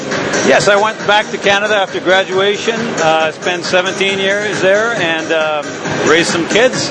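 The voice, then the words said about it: Quebec French-Canadian accent. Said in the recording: “folks hear the accent. You are originally from Quebec”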